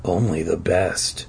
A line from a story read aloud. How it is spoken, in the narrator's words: he murmured